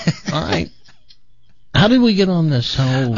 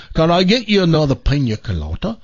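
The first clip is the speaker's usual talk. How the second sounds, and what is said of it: Poor put-on British accent. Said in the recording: “that British accent ... That wasn't a very good British accent.”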